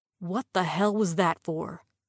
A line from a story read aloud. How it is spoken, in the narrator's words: she hissed